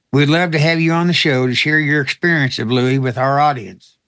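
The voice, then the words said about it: Southern drawl. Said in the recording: “I really like the way you say my last name. Maybe it's a southern drawl.”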